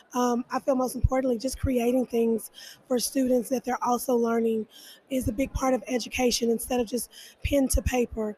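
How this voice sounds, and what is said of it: Hoarse, strained voice. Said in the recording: “I lost my voice this weekend.”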